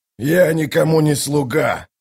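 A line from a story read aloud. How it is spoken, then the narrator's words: Growled. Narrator (Russian): зарычал Калор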